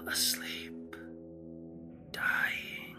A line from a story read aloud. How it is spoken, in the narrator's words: he said very faintly, almost inaudibly